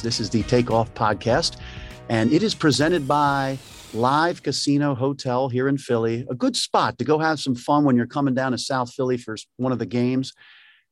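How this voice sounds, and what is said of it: Hushed golf announcer voice. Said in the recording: “I'm going to go with my golf voice for this podcast ... That's why I'm in a golf voice.”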